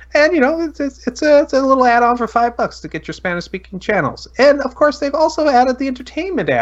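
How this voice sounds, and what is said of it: Usual voice. Nothing is said of it.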